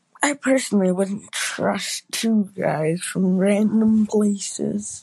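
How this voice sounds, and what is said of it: Usual voice. Nothing is said of it.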